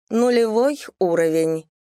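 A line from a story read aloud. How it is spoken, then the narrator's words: Bored. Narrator (Russian): Сейчас она скучающим голосом скажет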